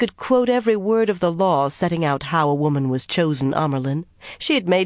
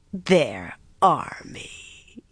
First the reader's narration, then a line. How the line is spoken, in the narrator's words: Elida sneered